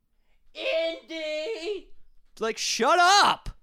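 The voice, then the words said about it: Screaming. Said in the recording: “because I'm screaming”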